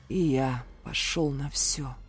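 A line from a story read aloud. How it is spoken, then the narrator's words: Pained hoarse rasp. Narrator (Russian): скривившись, прохрипел я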